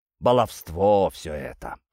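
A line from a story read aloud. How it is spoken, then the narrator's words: Snorted. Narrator (Russian): хмыкнул отец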